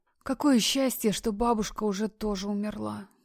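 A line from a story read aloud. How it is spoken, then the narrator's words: Whisper. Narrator (Russian): прошептала Полина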